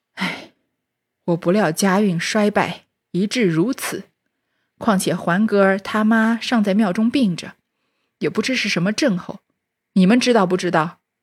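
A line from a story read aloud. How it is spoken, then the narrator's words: Sighing. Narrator (Chinese): 贾政叹口气道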